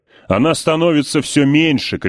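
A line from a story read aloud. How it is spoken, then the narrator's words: Shouted. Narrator (Russian): кричал Сол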